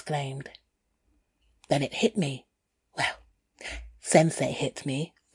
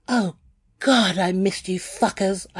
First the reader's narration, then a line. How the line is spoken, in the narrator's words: I cried